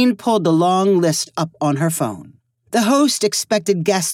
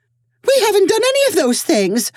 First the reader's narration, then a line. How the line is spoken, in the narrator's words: Ophelia cried in horror